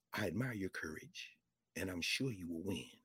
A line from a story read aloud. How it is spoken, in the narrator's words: she said, whispered